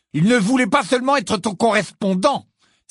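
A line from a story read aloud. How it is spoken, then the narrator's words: Accusing exclamation. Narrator (French): s'écria Ron d'un ton accusateur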